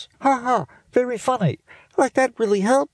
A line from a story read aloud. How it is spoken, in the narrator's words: said Judy, pinching her nose closed and talking in a funny voice